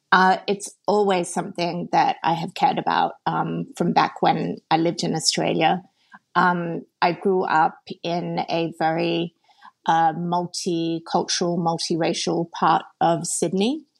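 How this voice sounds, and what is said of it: Australian accent. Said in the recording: “I'm from Australia, which is probably self-evident from my accent, which I'm told I still have”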